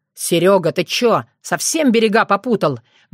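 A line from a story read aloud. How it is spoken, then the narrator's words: Roar. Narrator (Russian): взревел Роман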